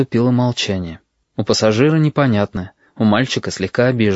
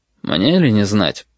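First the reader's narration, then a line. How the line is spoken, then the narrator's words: Dry reply. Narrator (Russian): сухо отозвался пассажир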